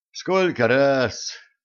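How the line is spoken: Sad agreement. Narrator (Russian): грустно согласился Михаил Николаевич

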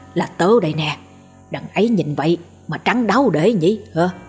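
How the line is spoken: Whisper. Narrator (Vietnamese): Gã thì thào

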